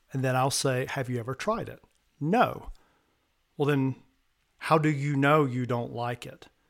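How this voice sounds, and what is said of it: American Southern accent. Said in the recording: “so I'm from the American South, if you can't tell by the accent,”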